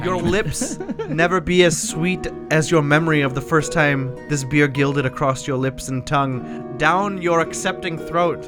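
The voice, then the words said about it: Put-on Irish accent. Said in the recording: “Can you keep doing that Irish accent? That was nice. You slipped it in there.”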